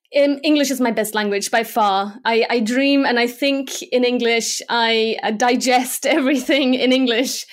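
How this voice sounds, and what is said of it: Slight English accent. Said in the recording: “you actually kind of have an English accent too”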